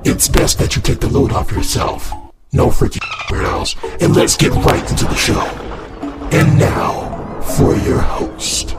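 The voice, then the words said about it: Weird announcer character voice. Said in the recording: “weird voice announcer guy”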